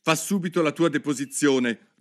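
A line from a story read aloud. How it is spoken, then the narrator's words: Angry king. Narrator (Italian): ripeté il re con voce collerica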